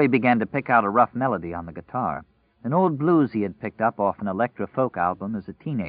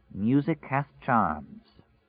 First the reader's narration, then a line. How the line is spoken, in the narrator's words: Very quietly, so quietly that it might have been a thought in his own head, Nadine said